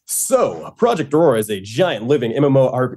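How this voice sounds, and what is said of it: Put-on announcer voice. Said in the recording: “I will do my little announcer voice.”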